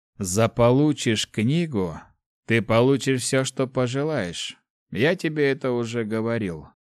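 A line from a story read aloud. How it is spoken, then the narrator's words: Plain. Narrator (Russian): ответил маг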